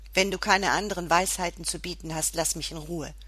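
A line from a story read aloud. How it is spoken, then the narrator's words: Snapping irritably. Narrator (German): schnauzte ich den kleinen Vogel auf mir an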